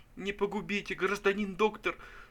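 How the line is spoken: Weeping plea. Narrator (Russian): сказал Пузырев и зарыдал неподдельными слезами

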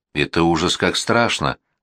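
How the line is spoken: Monotone voice. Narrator (Russian): монотонным голосом рассказывал Борис

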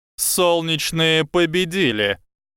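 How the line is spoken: Booming voice from everywhere. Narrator (Russian): Прогремел голос профессора Квирла, исходящий отовсюду и ниоткуда

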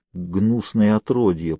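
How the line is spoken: Whisper through clenched teeth. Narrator (Russian): прошептала она сквозь стиснутые зубы

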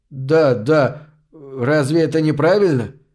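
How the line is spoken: Stammering. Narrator (Russian): Запинаясь, выговорил Хеслер

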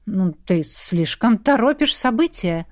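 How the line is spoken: Son grumbling. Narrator (Russian): проворчал сын

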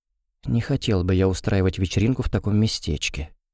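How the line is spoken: Whispered. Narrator (Russian): прошептал Льюис

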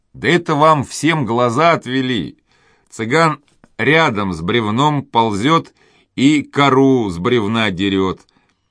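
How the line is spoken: Men laughing. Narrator (Russian): Засмеялись мужики

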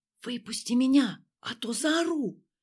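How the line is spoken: Whisper. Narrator (Russian): прошептала мне Ксения в ответ

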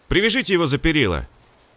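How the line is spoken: Shout, playing the fool. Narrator (Russian): крикнул охранник, играя роль дурачка

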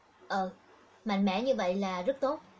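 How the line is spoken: Smiling. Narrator (Vietnamese): Kiều Ngân Âu mỉm cười

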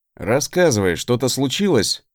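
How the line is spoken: Sigh. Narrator (Russian): вздохнул я

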